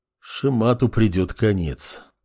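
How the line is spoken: Detached mutter. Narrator (Russian): отрешенно пробормотал глава государства

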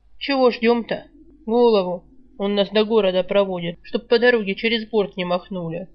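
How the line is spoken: Ironic snort. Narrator (Russian): Иронично хмыкнул Мих

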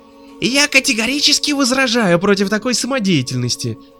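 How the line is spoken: Shrieking. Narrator (Russian): визжал Свиридов

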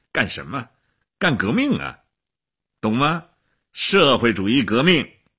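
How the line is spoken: Laughing. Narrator (Chinese): 齐比索夫笑起来了

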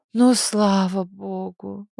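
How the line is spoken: Relieved exhale. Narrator (Russian): выдохнула Зойка

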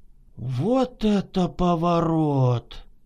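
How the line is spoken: Astonished mutter, two voices. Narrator (Russian): Одновременно и пораженно пробормотали обе подруги

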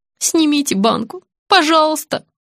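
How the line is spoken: Young man groaning. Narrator (Russian): застонал парень

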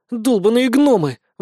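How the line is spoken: Pouting sigh. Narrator (Russian): вздохнула надувшая губки Вика

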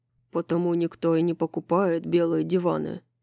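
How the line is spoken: Grumbling. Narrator (Russian): проворчал ангел

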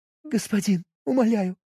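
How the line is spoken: Voice breaking into sobs. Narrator (Russian): Голос срывался на всхлипы

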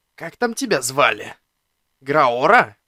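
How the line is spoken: Hoarse wheeze in pain. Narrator (Russian): прохрипел я, поднимаясь и чувствуя, как с дикой болью и шипением зарастают раны

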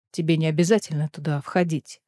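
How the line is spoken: Quiet. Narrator (Russian): тихо сказал он Элиде

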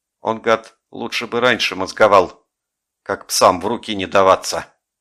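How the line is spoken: Angry grumble. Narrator (Russian): буркнул сердито горбун

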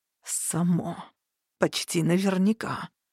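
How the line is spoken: Quiet, through clenched teeth. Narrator (Russian): сквозь зубы тихо проговорил эльф

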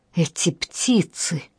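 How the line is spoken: Irritated snap. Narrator (Russian): раздраженно бросила Амалия

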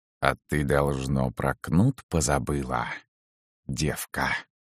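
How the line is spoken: Hissing. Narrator (Russian): зашипела она

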